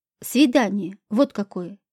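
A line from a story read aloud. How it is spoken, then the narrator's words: Angry curt retort. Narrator (Russian): зло бросил администратор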